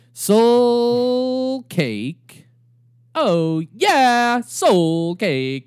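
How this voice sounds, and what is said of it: Sung imitation of a band's singer. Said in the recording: “I kind of sang it like Cake would sing it. ... That was my cake impersonation.”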